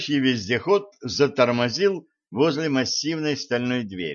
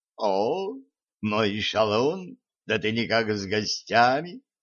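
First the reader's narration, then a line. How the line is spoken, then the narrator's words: Velvety, slightly husky voice. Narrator (Russian): откликнулся чей-то бархатистый с легкой хрипотцой голос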